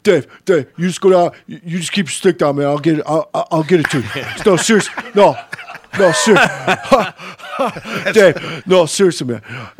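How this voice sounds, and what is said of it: Imitates another person's voice. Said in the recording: “Nobody does a Blummer impression ... That's a great Blummer”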